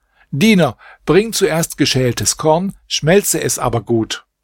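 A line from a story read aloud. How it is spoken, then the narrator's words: Called out, commanding. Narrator (German): rief der Hausherr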